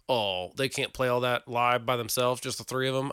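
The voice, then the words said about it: Put-on Texas accent. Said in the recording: “like a Texas accent ... that Green Day fan that I just did an impersonation of”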